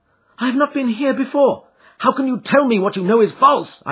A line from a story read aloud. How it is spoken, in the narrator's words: cried